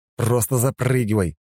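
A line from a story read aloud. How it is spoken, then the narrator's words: Angry command. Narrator (Russian): зло приказал я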